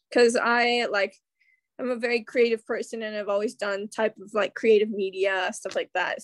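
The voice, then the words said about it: American accent. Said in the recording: “from your accent, you're American”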